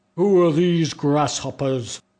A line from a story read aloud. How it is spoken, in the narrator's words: one of them bellowed